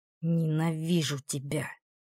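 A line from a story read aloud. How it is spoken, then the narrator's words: Hiss, hobbling past. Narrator (Russian): прошипела Кэс, ковыляя мимо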